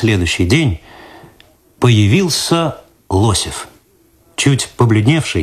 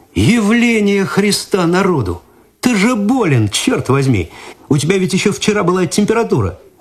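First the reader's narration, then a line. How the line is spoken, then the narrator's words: Astonished exclamation. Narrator (Russian): Игорь изумленно воскликнул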